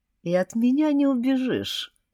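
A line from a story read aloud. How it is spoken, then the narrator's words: Gentle, affectionate. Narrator (Russian): сказал он ласково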